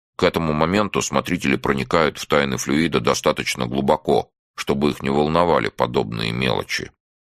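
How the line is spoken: Crisp, clipped. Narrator (Russian): отчеканил он

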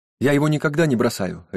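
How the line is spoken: Sharp objection. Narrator (Russian): резко возразила Кэти

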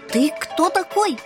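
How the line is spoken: Shouting. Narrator (Russian): первым крикнул рыжий

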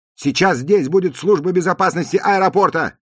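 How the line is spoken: Shout. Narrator (Russian): крикнул грузчиком Джуди

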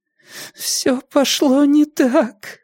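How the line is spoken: Whimpering, struggling for words. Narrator (Russian): хныкала Юлия, наконец сумев сформулировать нечто похожее на целое предложение

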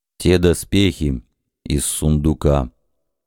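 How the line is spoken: Quiet but audible rumble. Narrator (Russian): тихо, но вполне слышно прогудел Каблан

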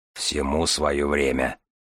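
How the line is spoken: Grumbling huge man. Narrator (Russian): пробурчал человек-гора

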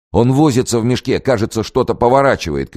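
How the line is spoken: Shouting. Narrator (Russian): кричал Козловский

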